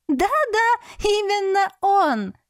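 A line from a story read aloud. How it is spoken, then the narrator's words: Joyful confirmation. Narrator (Russian): радостно подтвердила сестрица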